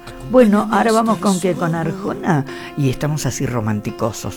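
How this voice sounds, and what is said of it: Mock radio announcer voice. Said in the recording (Spanish): “Voz de locutor.”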